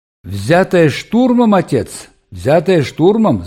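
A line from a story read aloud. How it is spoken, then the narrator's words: Yelling. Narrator (Russian): заорал Вайнгартен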